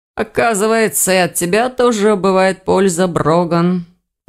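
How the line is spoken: Tired sigh. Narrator (Russian): устало вздохнул Ирс

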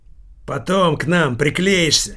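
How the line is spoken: Barked. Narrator (Russian): рявкнул Килькин

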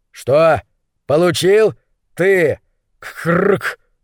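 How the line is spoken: Loud, for audience. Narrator (Russian): произнес гуталин достаточно громко, чтобы его услышали зрители

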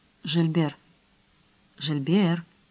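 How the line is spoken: Whispered call. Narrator (Russian): шепотом позвал он

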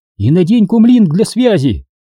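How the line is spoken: Woman calling after someone. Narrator (Russian): крикнула джедай вслед

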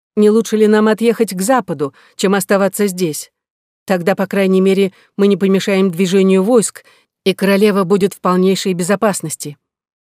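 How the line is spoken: Loud shout. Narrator (Russian): Екатерина громко крикнула аббату

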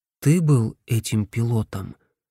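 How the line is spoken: Quiet question. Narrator (Russian): тихо спросил Джим

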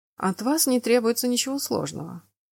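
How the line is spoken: Calm. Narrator (Russian): спокойно проговорил герцог

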